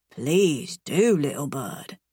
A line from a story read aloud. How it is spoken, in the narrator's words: he murmurs